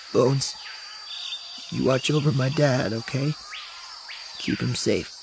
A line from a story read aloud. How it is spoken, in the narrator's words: Temin, trying desperately not to cry, whispers